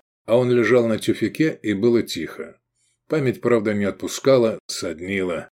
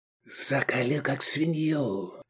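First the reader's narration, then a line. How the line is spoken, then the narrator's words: Whisper. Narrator (Russian): светил с губ шепот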